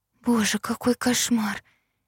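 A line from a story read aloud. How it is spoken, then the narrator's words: Whisper. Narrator (Russian): прошептала я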